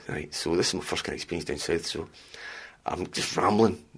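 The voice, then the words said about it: Strong Scottish accent. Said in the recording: “My Scottish accent's too strong”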